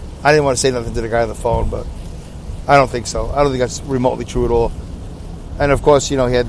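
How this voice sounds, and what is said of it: Usual voice. Nothing is said of it.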